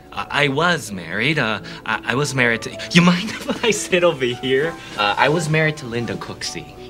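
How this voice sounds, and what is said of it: Minnesota accent. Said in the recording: “a Minnesota accent of sorts”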